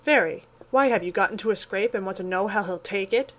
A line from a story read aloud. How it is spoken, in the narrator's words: asked Joe rather sharply